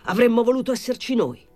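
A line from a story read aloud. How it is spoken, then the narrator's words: Exclaimed. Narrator (Italian): esclamò Pilon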